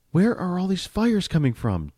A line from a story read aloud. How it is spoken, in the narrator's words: June asked, gasping for breath